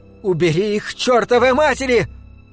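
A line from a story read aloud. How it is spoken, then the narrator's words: Screaming from wasp stings. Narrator (Russian): Еще две осы цапнули Карлу около губ, и она заорала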